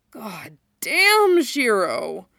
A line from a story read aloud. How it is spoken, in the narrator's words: Hunk murmured